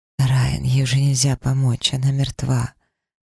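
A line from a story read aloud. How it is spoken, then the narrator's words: Gentle. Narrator (Russian): мягко произнесла целительница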